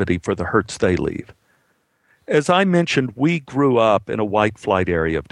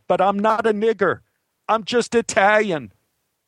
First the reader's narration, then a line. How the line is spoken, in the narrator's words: with huge tears rolling down his cheeks, he yelled